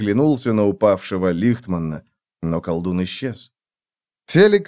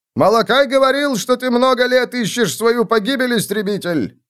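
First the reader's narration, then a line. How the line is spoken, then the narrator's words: Shouting. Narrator (Russian): крикнул Лихтман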